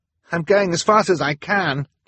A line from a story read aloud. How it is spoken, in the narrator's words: Klaus cried